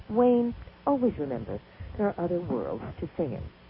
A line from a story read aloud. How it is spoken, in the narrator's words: sensed my deep concern, for she said quietly